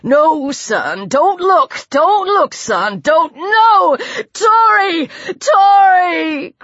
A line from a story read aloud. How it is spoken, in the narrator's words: Greg wailed